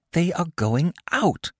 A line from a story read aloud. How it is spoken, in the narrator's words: whispered